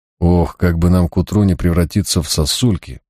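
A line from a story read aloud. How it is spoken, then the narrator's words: Grumbling. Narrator (Russian): проворчал я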